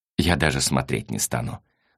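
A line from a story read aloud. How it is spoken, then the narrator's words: Sigh. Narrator (Russian): вздохнул Василий Васильевич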